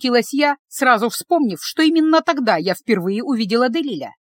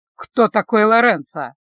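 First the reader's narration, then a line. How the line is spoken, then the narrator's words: Unpleasant tone. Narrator (Russian): Неприятным тоном спросил Люк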